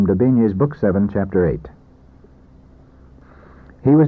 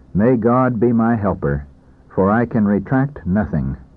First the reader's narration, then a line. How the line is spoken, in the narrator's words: the doctor himself said calmly